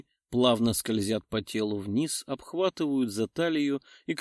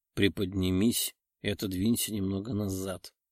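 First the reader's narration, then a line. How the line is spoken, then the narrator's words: Muffled growl. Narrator (Russian): глухо рычит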